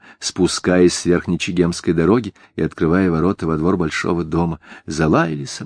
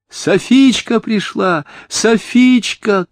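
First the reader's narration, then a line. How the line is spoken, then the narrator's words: Children shouting. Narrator (Russian): крикнули дети дяди Кизыма, первыми выбежавшие во двор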